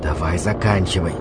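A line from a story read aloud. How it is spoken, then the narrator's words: Whisper. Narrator (Russian): прошептал я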